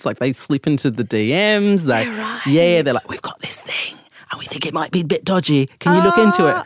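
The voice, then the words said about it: Distinctive accent. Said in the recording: “I love the accent.”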